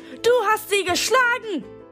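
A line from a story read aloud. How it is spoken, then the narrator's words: Screaming. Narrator (German): schrie ich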